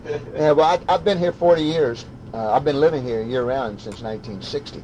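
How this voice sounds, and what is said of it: Regional accent. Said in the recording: “I haven't lost my accent, you know... I recognized your voice, you know. So you can't get away from that.”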